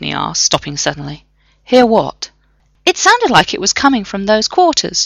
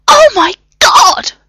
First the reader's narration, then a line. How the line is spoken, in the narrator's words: The scream sounded suspiciously like Novak